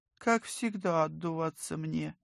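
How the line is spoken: Sighing. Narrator (Russian): Вика вздохнула

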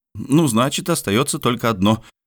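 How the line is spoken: Resolute exclamation. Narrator (Russian): решительно воскликнул Мишель

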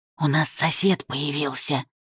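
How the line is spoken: Whispered explanation. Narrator (Russian): объяснил шепотом

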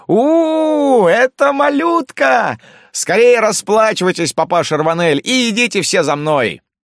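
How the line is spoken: Urgent shout. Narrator (Russian): Так как шум все приближался, Жилькен закричал

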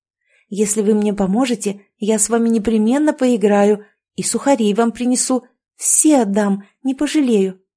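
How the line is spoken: Excited exclamation. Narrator (Russian): взволнованно воскликнула Маруся

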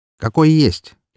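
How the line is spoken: Snort. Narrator (Russian): хмыкнул я

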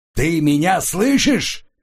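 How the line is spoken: Yelled. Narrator (Russian): заорал

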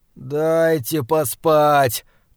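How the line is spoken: Groaning. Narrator (Russian): простонал

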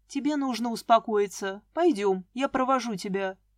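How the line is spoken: Calm. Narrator (Russian): спокойно сказал Илья

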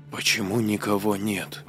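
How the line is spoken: Quiet question. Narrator (Russian): тихо спросила Сара

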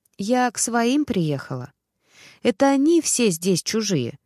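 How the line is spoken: Calm. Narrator (Russian): спокойно ответила

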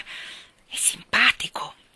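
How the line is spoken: Whisper. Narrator (Italian): sussurrò

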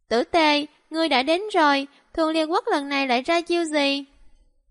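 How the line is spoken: Smiling. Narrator (Vietnamese): Ngạo Quân mỉm cười nói

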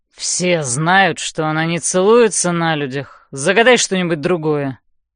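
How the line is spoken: Through gritted teeth. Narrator (Russian): садит сквозь зубы Хардин

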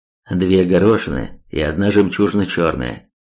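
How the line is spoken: Plain. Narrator (Russian): сказал Ярослав

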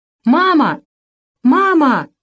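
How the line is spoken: Sobbing scream. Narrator (Russian): кричал он, захлебываясь слезами

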